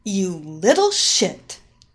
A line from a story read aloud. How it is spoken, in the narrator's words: she spat out